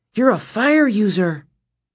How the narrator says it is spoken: Nissa cried

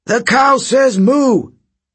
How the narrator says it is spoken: The kids howled

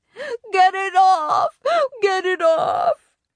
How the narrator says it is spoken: Sam screamed

